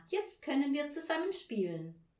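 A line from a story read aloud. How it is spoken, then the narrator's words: Called out. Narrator (German): rief Tina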